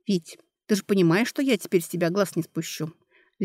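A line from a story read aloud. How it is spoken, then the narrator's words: Icy tone. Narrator (Russian): ледяным тоном сказала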